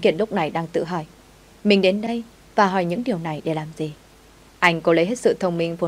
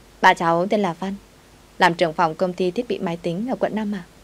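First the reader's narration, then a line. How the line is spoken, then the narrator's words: Smiling. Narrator (Vietnamese): Khuôn mặt đáng yêu mỉm cười rồi nói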